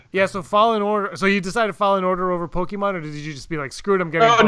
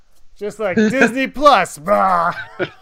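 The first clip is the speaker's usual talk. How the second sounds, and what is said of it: Imitates another person's voice. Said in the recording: “This is my impression of”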